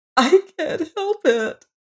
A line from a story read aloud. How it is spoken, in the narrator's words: sobbed Emma McChesney, her 2 hands before her face